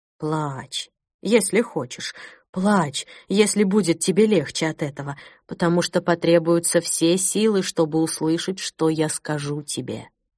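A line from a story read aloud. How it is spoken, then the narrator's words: Sad. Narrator (Russian): печально произнес Иоахим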